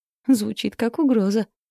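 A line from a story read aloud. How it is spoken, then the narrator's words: Giggling. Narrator (Russian): хихикнула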